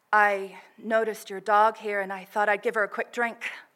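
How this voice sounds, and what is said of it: Deep, smooth put-on American accent. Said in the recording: “Her voice was dusky but smooth, deeper than I expected, and American? Some kind of accent ... this horrendous accent”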